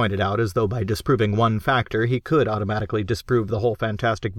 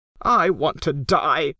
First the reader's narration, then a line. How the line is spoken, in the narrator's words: Crockett said wildly